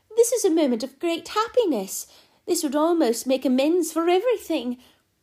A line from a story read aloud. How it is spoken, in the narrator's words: she cried